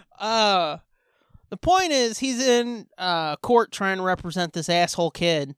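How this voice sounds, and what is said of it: Heavily exaggerated put-on accent. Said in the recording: “I'm going so hard with the accent tonight”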